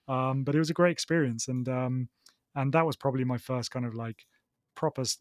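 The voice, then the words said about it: Southern English accent. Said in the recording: “my southern accent”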